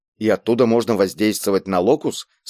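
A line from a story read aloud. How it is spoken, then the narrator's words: Plain. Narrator (Russian): спросил Вейзель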